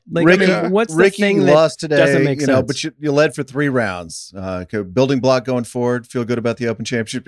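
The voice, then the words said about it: Mock reporter asking stock questions. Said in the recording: “imitating the questions that actually do get asked ... I can just do imitations”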